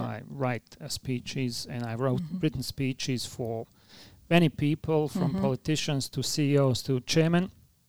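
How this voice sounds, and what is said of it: Strong foreign accent. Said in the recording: “I have a strong accent”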